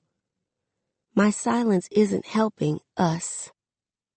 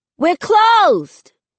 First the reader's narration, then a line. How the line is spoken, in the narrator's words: I yell